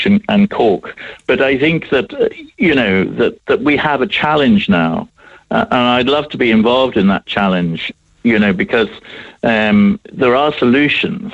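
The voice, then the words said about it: English accent. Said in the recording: “you can hear my English accent”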